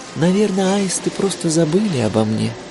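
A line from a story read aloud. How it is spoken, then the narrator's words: Sighing. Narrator (Russian): вздохнула она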